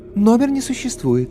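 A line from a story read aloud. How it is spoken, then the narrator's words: Melodious female voice. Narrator (Russian): Орлица неожиданно мелодичным женским голосом сообщила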